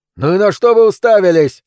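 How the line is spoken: Angry shout. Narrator (Russian): закричал он

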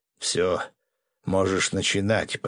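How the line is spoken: Muttering. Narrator (Russian): пробормотал я, открыв глаза

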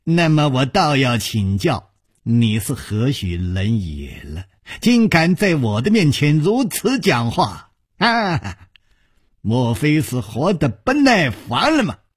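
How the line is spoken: Sinister laugh. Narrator (Chinese): 白玉魔阴森森地笑着

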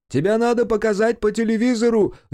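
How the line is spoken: Excited shout. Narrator (Russian): закричал кто-то из толпы

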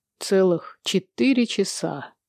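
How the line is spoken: Solemn reply. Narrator (Russian): торжественно отвечает Генри

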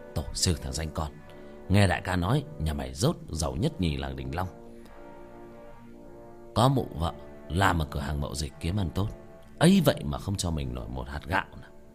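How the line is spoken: Muttering. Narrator (Vietnamese): gã lầm bầm

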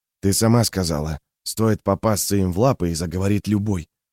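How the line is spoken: Low voice. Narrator (Russian): вполголоса произнес Сибальд

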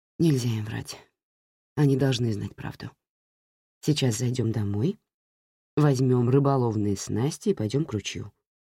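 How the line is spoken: Even, steady voice. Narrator (Russian): ровным голосом сказал я

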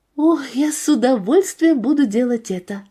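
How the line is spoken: Plain. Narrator (Russian): ответила я

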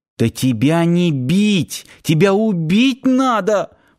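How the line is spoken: Sobbing. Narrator (Russian): всхлипнула Надя

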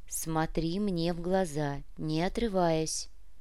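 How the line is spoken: Firm yet gentle command. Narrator (Russian): Требовательно, но в то же время мягко приказала Бьяна

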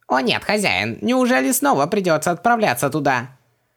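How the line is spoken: Indignant wail. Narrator (Russian): Возмущенно завопил Хубактис

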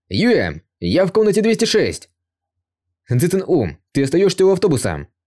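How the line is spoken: Loud young man's shout. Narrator (Russian): высокий и очень красивый парень тоже громко крикнул

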